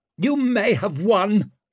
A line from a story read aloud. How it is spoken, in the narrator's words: she snapped